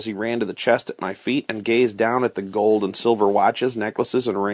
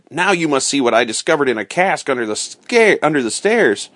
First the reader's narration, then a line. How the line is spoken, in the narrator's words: Once he got over his amazement, he cried